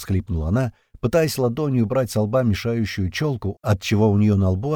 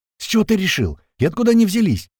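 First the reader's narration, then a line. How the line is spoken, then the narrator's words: Shout from behind. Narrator (Russian): прокричала сзади девушка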